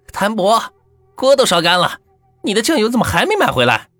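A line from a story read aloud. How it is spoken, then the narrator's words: Mother calling from behind. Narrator (Chinese): 我母亲 在后面喊我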